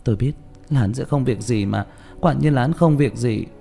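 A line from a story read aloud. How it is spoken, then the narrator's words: Sighing mutter. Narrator (Vietnamese): Châu Tĩnh Như thở dài lẩm bẩm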